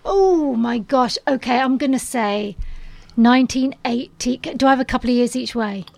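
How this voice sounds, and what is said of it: Hoarse voice. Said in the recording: “I'm a bit hoarse today... you are hoarse”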